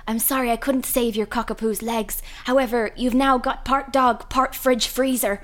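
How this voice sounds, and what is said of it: Deliberately terrible put-on accent. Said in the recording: “was a terrible accent. I'm so sorry if I offend anyone with that terrible accent.”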